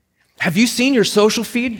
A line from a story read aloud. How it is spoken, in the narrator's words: she blurted out